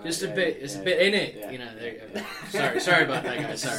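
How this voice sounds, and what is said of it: Non-local regional accent. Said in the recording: “I'm not from around here. From my accent”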